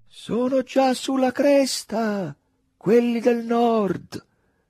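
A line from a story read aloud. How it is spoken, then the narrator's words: Lieutenant's shout. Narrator (Italian): gridò il tenente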